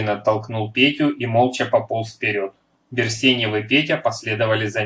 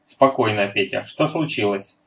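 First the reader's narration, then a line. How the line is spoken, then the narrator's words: Plain. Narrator (Russian): спросил Берсеньев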